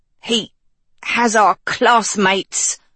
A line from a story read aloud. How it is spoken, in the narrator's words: Hort rasped